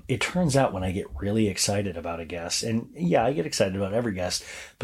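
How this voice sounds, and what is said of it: Hoarse, strained voice. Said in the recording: “my voice is so thrashed from this week ... my voice is thrashed, you guys”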